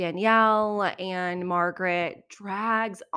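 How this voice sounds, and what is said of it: Usual voice. Nothing is said of it.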